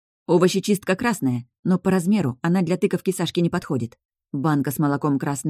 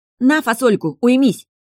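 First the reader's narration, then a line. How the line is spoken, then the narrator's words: Barked. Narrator (Russian): рявкнула я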